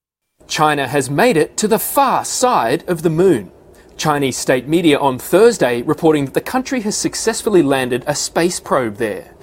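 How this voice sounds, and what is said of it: Australian accent. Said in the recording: “Is there a cooler accent than Australian?”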